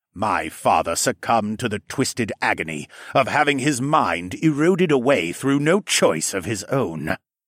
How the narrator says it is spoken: Siskern snapped

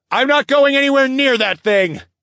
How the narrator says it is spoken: I shouted above the cacophony of noise

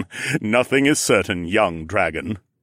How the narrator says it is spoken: Aaron chuckled

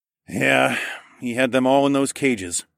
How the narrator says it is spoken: I grunted

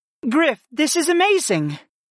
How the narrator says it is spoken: gasped

